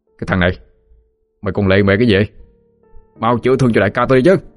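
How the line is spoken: Impatient young men shouting. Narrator (Vietnamese): Mấy tên thanh niên thì không đủ kiên nhẫn, tiếp tục quát lên

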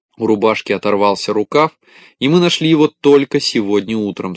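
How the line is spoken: Plain. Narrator (Russian): сказала стрекоза

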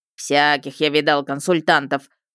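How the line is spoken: Grumbling retired policeman. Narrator (Russian): бурчал архивный служащий, явно полицейский в отставке

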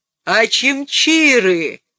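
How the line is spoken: Roared. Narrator (Russian): проревел он

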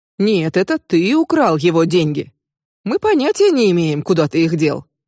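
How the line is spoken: Mocking. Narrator (Russian): насмешливо произнес Лоренцо

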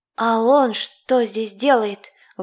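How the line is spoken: Breathed out. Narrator (Russian): выдохнула Илона

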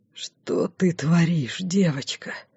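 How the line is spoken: Whisper in ear. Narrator (Russian): прошептал он мне на ухо

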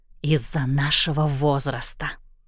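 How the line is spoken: Whisper. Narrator (Russian): прошептала Уиллоу

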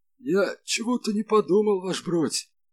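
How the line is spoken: Miserable whine. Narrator (Russian): тоскливо проскулил Малинин

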